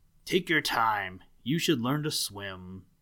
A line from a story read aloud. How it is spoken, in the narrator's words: A gruff voice growled